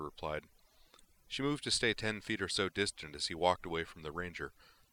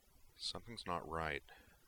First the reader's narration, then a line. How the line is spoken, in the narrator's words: Griffin murmured